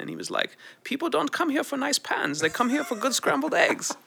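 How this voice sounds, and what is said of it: Put-on accent. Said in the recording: “I really like this accent.”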